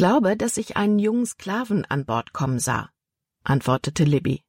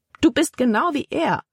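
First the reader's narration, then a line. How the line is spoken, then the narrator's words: Exclaiming. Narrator (German): rief Libby aus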